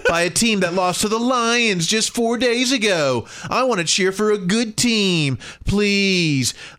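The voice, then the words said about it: Whiny mocking voice. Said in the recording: “I appreciated you reading this in the whiny voice”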